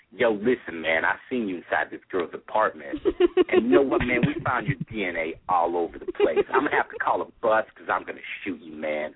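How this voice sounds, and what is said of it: Brooklyn-accented impression of another person. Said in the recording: “I love the iced tea. It's like totally spot on... He says the word apartment weird. It's like that Brooklyn accent... It's totally perfect.”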